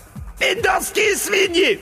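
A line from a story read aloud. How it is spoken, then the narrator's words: Shrill squeal. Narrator (Russian): взвизгнул бригадный генерал Хухуев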